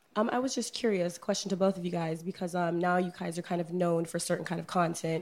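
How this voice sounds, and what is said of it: Hoarse, fading voice. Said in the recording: “I'm losing my voice today.”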